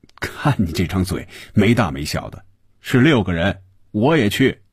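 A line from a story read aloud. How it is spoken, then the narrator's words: Laughing. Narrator (Chinese): 红军笑着说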